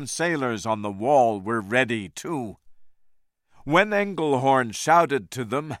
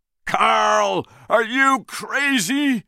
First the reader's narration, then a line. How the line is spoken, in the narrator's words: Jack shouted